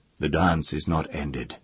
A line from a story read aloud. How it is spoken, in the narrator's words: he said